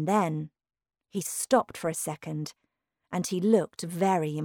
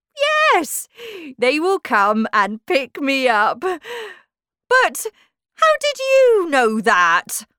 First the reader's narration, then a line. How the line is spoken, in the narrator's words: Humpty Dumpty cried loudly